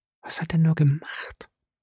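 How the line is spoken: Frightened woman whispering. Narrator (German): flüsterte die erschrockene Frau

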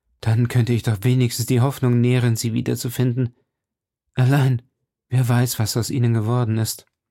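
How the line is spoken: Sighing man. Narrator (German): seufzte er

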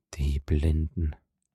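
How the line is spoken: Murmur. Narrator (German): murmelte Monte Cristo

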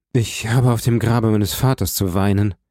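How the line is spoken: Dull hollow tone. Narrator (German): antwortete Morel mit dumpfem Ton

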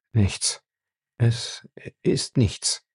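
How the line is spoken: Hoarse. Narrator (German): sagte er heiser

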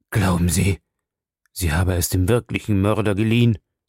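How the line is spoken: Father groaning. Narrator (German): stöhnte der Vater

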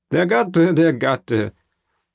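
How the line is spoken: Laughing exclamation. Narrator (German): rief Caderousse lachend

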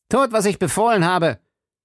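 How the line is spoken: Commissioner calling out. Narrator (German): rief der Kommissar

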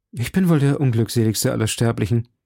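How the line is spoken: Sighed. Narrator (German): seufzte D'Artagnan

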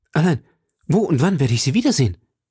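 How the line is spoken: Called out. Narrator (German): rief

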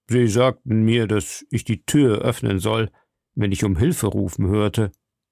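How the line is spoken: Plain. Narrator (German): sagte der Soldat

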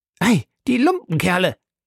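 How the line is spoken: Indignant exclamation. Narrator (German): rief Passepartout, der seine Entrüstung so äußern sich nicht enthalten konnte

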